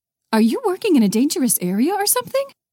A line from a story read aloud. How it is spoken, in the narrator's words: her mother asked, her voice rising an octave